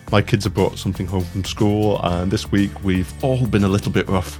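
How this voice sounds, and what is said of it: Croaky, hoarse voice. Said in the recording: “my voice sounds a little bit croaky”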